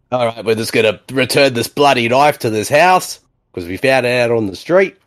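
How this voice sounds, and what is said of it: Put-on Australian accent. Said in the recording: “I don't know why I'm speaking with an Aussie accent.”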